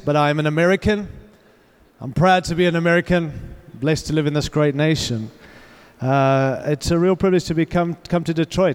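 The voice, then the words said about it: Australian-influenced accent. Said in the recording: “I recognize that I have an accent ... I have an Australian ... I was born in Africa, raised in Australia”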